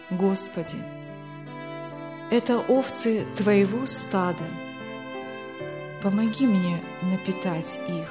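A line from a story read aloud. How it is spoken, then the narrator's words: Quiet but clear. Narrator (Russian): произнес тихо, но внятно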